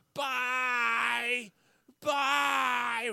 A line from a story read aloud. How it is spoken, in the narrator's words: she starts screaming in my face